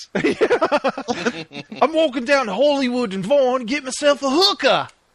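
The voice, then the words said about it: Bad Gordon Ramsay impression accent. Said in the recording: “It's a really bad accent.”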